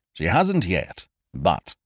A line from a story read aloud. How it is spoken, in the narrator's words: said Euclidge grimly